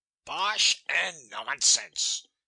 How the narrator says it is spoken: he exclaimed impatiently

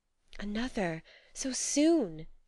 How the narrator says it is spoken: she exclaimed, her eyes filled with delight

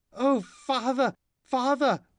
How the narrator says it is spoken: shrieked Harry

